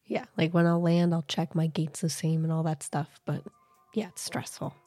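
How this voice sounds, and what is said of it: Hoarse, strained voice. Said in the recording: “As everyone can hear, I'm sick, so I'm not sick anymore, but my voice is gone.”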